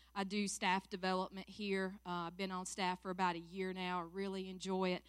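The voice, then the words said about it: Southern US accent. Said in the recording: “I know you can't tell by the accent, right? You thought I was from Alaska. Nope. Born and raised right here in Seneca, South Carolina.”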